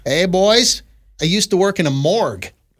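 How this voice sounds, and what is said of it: Put-on accent while reading. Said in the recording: “What was that accent? I'm just reading. I just assume this person has that accent.”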